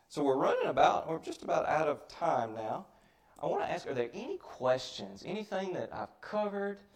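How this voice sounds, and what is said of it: Mississippi Southern American accent. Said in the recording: “my Mississippi accent”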